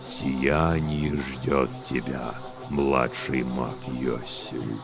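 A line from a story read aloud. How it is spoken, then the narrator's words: Drawling voice. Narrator (Russian): сам высший тягучим своим голосом говорит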